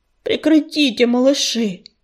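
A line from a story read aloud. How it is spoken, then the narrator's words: Grumbling. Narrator (Russian): заворчал он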